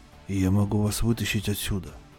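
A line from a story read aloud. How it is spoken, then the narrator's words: Whisper. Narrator (Russian): прошептал он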